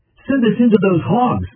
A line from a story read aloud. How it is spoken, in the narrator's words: the demons begged